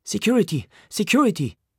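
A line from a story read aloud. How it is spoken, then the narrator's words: Shouting. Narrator (German): ruft die Haifa-Madam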